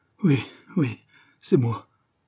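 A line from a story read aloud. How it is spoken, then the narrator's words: Faint dying voice. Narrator (French): fit le reporter d'une voix mourante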